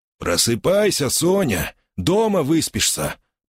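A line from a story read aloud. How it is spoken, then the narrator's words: Grumbling. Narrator (Russian): проворчал он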